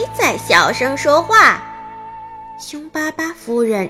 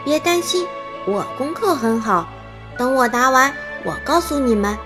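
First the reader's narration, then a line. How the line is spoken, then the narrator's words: Quietly. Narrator (Chinese): 康妮小声对她说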